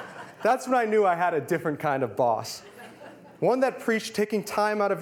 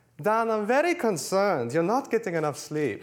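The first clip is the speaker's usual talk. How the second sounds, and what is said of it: Imitating Arianna's trademark accent. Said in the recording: “she looked at me concerned and said, in her trademark accent”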